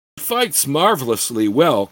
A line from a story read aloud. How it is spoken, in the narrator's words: Keek commented with a cackling laugh